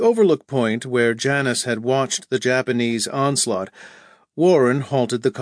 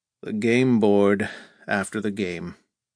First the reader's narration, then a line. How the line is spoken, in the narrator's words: Bitterly, Victor Henry muttered